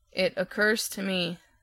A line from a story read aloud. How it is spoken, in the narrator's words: said Tick-Tock calmly